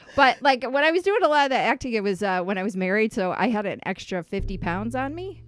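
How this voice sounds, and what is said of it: Usual voice. Nothing is said of it.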